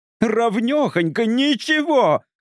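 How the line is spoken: Shouting. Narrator (Russian): кричала она

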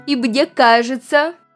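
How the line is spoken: Very loud and stern. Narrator (Russian): произнес очень громко и строго

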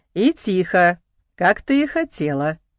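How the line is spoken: Laughing male voice. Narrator (Russian): посмеялся он

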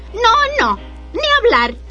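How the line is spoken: Shrill squeal. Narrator (Spanish): chilló el segundo cerdito

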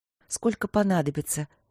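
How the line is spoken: Soft. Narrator (Russian): мягко проговорила Василина

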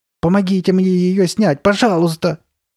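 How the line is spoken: Nearly screaming. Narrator (Russian): почти закричала Карли Бет

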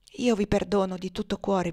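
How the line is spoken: Faint whisper. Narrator (Italian): bisbigliò Tom fievolmente

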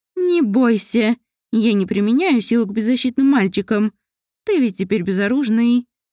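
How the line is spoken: Laughing. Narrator (Russian): Мариэль засмеялась

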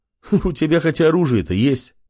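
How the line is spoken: Short mocking laugh. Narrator (Russian): хохотнул блондин в латах

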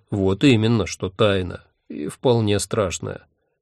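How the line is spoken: Calm agreement. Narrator (Russian): спокойно согласился он

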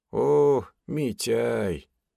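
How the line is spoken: Glad but weak old voice. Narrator (Russian): Обрадованным, хоть и слабым голосом, поприветствовал меня реликтовый дед

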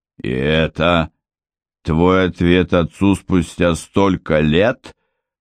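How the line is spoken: Growl. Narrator (Russian): прорычал Гровер

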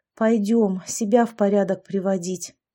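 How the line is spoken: Tired. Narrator (Russian): устало сказала я

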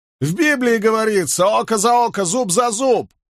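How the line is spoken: Shout from crowd, preacher. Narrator (Russian): крикнул из толпы один из доморощенных проповедников

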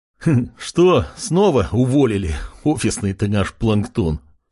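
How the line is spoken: Man's laughing remark. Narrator (Russian): хохотнул другой мужик

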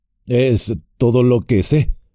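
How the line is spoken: Embarrassed stammering. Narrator (Spanish): balbuceó Sam, enrojeciendo

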